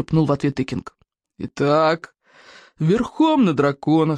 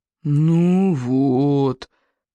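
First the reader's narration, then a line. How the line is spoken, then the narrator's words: Groaning. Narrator (Russian): застонал Смаркала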